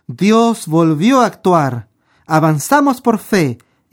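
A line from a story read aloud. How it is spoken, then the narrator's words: Exclaiming. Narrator (Spanish): David exclamó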